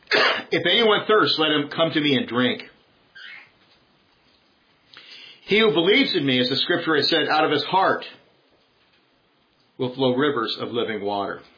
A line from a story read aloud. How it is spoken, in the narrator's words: Jesus stood and cried out, saying